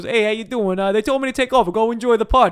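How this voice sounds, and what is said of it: Nasal put-on New York accent. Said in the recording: “if you're doing a New York Long Island accent, a little nasal, a little stuffy nose ... we all got that kind of nasal accent”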